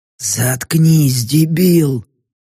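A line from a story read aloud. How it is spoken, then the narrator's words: Hiss. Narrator (Russian): прошипел другой голос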